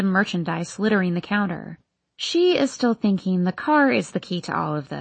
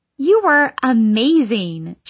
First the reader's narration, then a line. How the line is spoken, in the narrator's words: she yells, wide-eyed